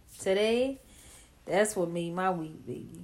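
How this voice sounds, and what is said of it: New Orleans accent. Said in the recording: “that's my New Orleans accent.”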